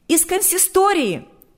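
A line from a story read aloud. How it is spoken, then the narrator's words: Shout. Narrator (Russian): выкрикнула она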